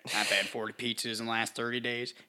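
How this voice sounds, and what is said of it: Imitates another person's voice. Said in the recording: “That was actually a pretty good impersonation right there.”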